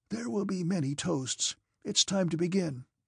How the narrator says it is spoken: he whispered

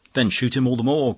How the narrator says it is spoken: cried the poet impatiently

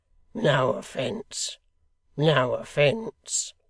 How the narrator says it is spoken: said that personage in a conciliatory tone

